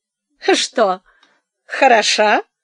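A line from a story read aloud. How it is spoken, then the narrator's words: Said, then laughed. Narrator (Russian): сказала она и засмеялась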